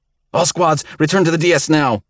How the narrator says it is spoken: Knepp shouted into the comms

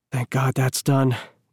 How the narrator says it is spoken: Eden muttered

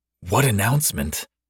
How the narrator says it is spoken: I whispered to Griffin on my other side, laughing into his fist

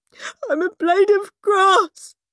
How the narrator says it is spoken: sobbed Weepy William

